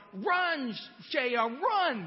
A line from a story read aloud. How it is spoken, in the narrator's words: everybody yelled